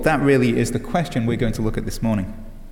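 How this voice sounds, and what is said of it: British accent softened toward American. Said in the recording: “As an Englishman, I could emphasize my British accent ... become as American as I could, changing my accent. I guess you could say I've settled on somewhere in between.”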